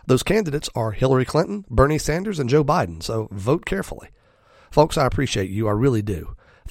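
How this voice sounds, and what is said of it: Raspy voice. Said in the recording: “Thank you for suffering through my raspy voice today.”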